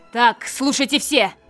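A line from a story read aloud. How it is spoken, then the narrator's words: Barking order. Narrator (Russian): рявкнула Амелия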